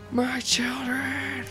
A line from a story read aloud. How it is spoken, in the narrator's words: a mace wielding blonde woman screaming